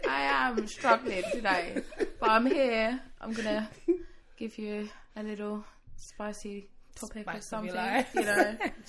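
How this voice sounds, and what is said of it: Hoarse, croaky voice. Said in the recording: “my voice is absolutely awful ... let ... The frog out”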